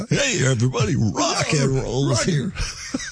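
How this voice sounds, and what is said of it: 1950s-60s rock and roll DJ voice. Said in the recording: “I slipped into my 50s, 60s rock and roll DJ days ... Your DJ voice.”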